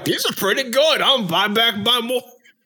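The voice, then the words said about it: Put-on Milwaukee accent. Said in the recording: “That's my Milwaukee accent. ... Nailed it.”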